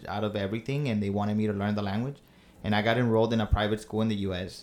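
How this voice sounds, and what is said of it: Strong Mexican accent. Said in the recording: “has a very Mexican accent.”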